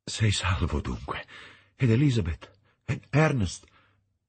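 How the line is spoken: Exclaimed. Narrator (Italian): esclamai

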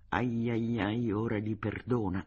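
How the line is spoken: Whispered. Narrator (Italian): Lezik aveva sussurrato

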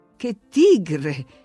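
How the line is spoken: Exclaimed. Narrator (Italian): esclamò la signora Linton

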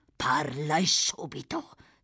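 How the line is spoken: Hissed. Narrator (Italian): sibilò

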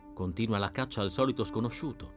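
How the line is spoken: Quiet explanation. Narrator (Italian): spiegò sottovoce la Vezzanese a Berardo

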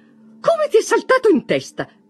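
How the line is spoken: Mother's exclamation. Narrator (Italian): esclamò sua madre

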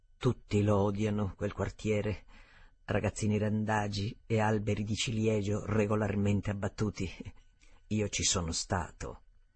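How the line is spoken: Theatrical panting. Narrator (Italian): Ansimò ostentatamente e infine disse

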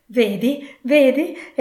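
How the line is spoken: Ecstatic exclamation. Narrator (Italian): esclamò Scrooge in estasi

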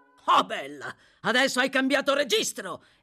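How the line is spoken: Astonished exclamation. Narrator (Italian): esclamò Sykes, estremamente stupito

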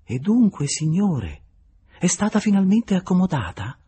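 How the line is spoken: Very sweet question. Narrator (Italian): chiedendogli in tono dolcissimo

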